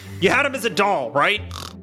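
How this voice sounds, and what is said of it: Shouting. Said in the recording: “why am I shouting 20 feet away?”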